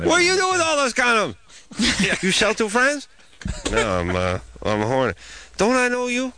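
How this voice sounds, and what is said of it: Imitates a shopkeeper's voice. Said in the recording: “that was was my impression of the Chinese shopkeeper”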